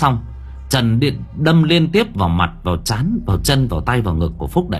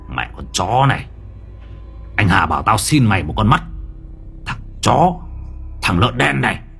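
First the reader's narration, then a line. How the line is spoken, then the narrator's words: Harsh gritted voice. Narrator (Vietnamese): Trần gằn giọng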